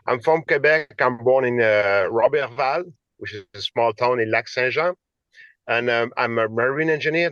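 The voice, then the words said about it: Quebec French accent in English. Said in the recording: “I'm from Quebec, and like you see with my accent, I will try to speak not too fast”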